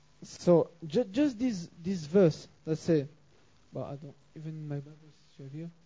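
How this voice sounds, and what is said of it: French accent. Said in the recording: “that's my accent. Sorry, I hope you will understand despite my French accent.”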